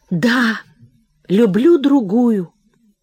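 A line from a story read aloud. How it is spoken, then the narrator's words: Muffled tragic whisper. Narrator (Russian): Глухо, трагическим шепотом выдохнул он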